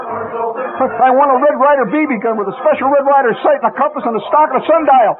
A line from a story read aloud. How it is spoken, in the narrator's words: I shouted